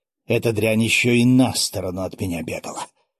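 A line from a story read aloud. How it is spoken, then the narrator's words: Displeased tone. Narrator (Russian): обратилась к нему Легостаева недовольным тоном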